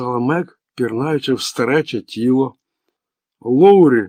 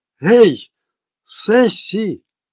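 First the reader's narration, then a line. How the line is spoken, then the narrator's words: Exclamation. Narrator (Ukrainian): вигукнула Мег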